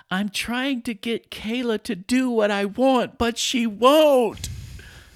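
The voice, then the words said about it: Imitates a young girl's voice. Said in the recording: “I'll do a little impression.”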